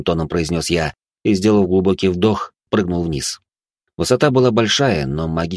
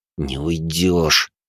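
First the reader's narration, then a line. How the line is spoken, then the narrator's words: Through gritted teeth. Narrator (Russian): процедил я сквозь зубы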